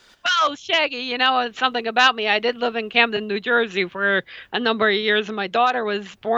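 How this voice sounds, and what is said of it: Usual voice. Nothing is said of it.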